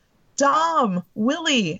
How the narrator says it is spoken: Eddie yelled

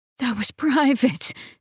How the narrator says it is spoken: she moaned

